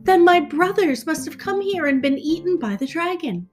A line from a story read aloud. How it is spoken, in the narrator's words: the prince's heart grew heavy and he cried